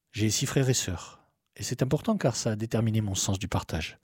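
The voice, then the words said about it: Mild southern French accent. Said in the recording (French): “un gazier du Sud ... D'où un petit accent plein de cigales”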